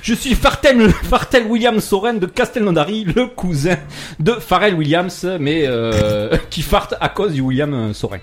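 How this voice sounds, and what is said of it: Silly put-on accent. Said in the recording (French): “Je prends toujours cet accent à la con”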